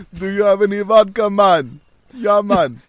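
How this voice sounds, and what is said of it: Bad put-on Jamaican accent. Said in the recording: “starts speaking in a Jamaican accent ... That's terrible.”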